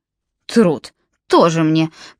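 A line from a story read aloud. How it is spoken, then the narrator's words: Contemptuous snort. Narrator (Russian): презрительно фыркнул Джалабин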